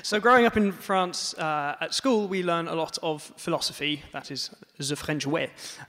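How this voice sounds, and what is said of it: French accent in English. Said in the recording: “as you can tell from my accent, I grew up in France.”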